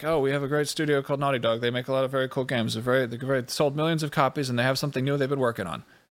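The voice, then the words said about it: Impression of Phil Harrison. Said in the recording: “It's a great impression.”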